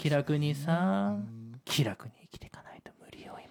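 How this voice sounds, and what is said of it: Very quiet, whispering speech. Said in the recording (Japanese): “一番今囁いてますけど、…音声さんがフェーダーちょっと上げてます”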